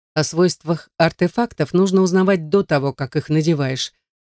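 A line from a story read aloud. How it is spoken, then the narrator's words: Sarcastic. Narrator (Russian): язвительно заметил магистр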